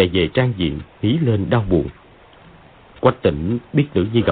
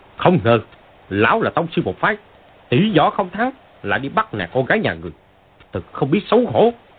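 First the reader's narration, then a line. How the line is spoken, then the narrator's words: Shouting. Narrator (Vietnamese): Võ Tô Văn quát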